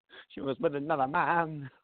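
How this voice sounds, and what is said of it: Sung imitation of another person's voice. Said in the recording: “That's the best impression of James Blunt I've ever heard ... It's a micro impression. I can only do that one line.”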